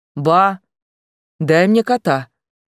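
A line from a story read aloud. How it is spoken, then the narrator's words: Eerily calm voice. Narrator (Russian): Пугающе спокойным голосом обратился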